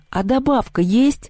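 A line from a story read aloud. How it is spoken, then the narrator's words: Timid older student. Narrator (Russian): робко спросил кто-то из старшеклассников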